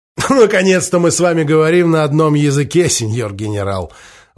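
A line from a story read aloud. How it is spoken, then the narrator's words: Laughing again. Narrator (Russian): Вновь рассмеялся Гуда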